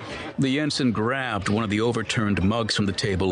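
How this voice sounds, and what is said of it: Usual voice. Nothing is said of it.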